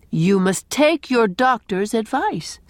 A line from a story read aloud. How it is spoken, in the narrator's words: said Gilbert